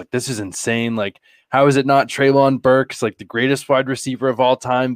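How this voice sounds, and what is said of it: Sarcastic exaggerated tone. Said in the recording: “I'm kidding when I say that. ... I'm being sarcastic”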